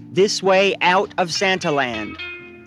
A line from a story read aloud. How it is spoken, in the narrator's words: in a loud voice